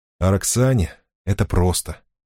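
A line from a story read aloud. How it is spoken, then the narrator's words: Quiet. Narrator (Russian): сказал он тихо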